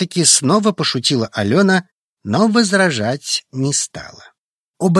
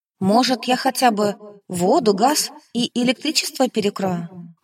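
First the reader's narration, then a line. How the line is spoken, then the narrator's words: Quiet addition. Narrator (Russian): тихо добавила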